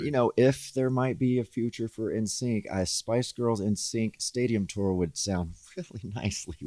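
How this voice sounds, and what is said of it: Southern American accent. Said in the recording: “is your accent. ... Oh, my Southern accent's coming out.”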